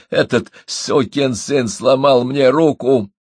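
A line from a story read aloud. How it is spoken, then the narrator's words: Young man groaning. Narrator (Russian): простонал юноша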